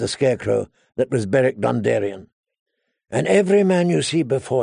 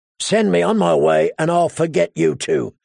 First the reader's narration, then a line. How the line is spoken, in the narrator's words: Clegane rasped